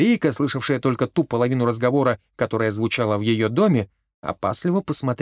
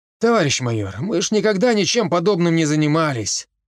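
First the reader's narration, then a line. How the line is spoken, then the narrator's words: Sighing. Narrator (Russian): вздохнул он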